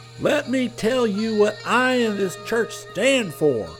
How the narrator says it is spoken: he yelled

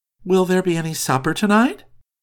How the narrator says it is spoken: she added in a playful tone

